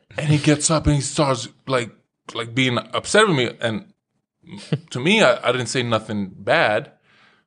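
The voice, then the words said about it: Slight Eastern European accent. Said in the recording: “my little like Eastern European accent still”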